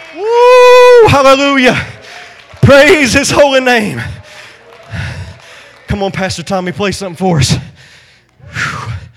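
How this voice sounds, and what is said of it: Breathless, out of breath. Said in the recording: “I'm out of breath.”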